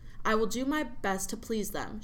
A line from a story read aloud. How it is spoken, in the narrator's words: she said